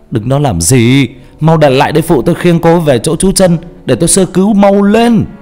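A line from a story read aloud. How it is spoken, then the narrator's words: Urgent shout. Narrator (Vietnamese): Anh Quân Y hét lên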